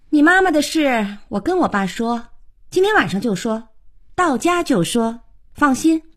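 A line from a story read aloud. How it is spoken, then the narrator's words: Offhand, without looking back. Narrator (Chinese): 头也不回地说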